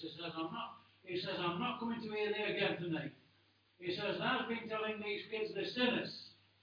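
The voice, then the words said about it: Derbyshire dialect quoting an old man. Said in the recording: “Excuse my Derbyshire accent.”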